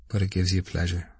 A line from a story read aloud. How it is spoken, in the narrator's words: said Stephen calmly